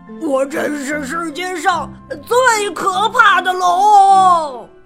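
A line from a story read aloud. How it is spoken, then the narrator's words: Roaring. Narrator (Chinese): 他都这么大吼一声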